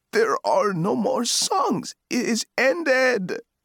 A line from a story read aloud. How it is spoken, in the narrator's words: the chanter cried